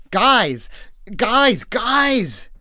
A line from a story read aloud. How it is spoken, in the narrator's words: he shouted over the din